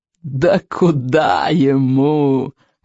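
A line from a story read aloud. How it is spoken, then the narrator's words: Loud laughter. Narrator (Russian): расхохотался Сморкала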